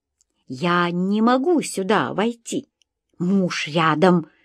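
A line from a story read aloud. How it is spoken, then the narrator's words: Loud hiss. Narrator (Russian): громко зашипела я по-русски кошке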